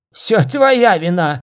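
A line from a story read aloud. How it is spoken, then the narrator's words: Hoarse shout. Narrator (Russian): закричал он хрипло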